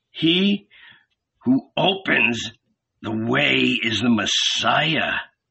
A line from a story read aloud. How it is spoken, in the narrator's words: the red beard growled